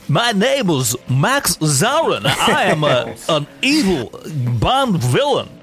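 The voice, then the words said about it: Bad Christopher Walken impression. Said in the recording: “that bad impression, I think Walken spent some time in China prior to saying that.”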